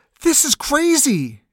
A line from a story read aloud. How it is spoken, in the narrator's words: Taji cried